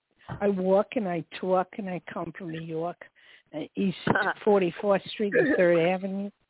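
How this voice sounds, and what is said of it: Exaggerated New York accent. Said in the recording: “I was giving her a taste of my New York accent.”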